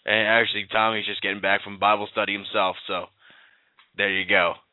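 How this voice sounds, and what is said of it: Strained, fading hoarse voice. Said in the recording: “as you hear, my voice is starting to go... I'm losing my voice as I'm talking... we've had this cold snap”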